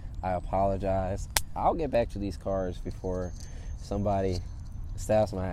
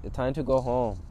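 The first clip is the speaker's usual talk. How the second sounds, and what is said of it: Bad put-on Jamaican accent. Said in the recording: “That was a very bad Jamaican accent.”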